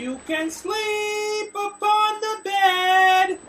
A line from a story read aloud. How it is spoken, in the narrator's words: cried the fair young maiden